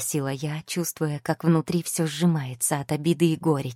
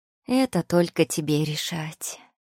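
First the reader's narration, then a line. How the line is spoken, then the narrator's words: Tired reply. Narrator (Russian): устало ответила Тия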